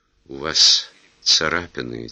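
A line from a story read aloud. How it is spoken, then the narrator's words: Quiet. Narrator (Russian): тихо сказала игла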